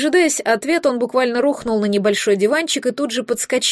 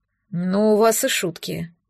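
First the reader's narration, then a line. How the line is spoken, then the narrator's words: Grumbling. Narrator (Russian): пробурчал он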